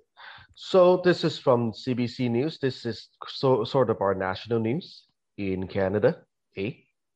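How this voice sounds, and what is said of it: Exaggerated Canadian accent, rising endings. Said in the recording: “I'm speaking in a very, very strong Canadian accent ... the last syllable would go up in pitch”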